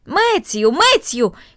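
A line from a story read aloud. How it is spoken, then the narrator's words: Calling out loudly. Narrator (Russian): крикнула она в направлении большой конюшни и амбара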